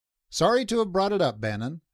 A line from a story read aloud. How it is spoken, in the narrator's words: he said smoothly